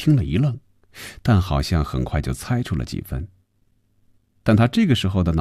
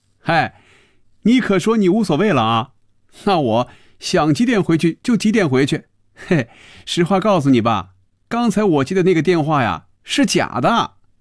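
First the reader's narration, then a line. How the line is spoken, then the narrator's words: Laughing aloud. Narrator (Chinese): 菲比笑出了声，说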